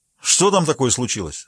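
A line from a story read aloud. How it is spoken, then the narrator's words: Plain question. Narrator (Russian): спросил ее муж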